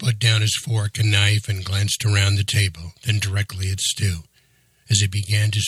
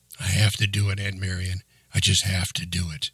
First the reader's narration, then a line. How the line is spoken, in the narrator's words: he answered quietly